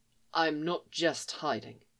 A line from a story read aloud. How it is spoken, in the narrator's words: he protested softly